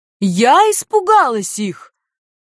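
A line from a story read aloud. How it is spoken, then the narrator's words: Shrieking. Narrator (Russian): визжала Нанья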